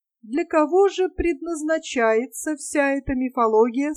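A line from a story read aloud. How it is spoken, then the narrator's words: Plain question. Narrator (Russian): спросил он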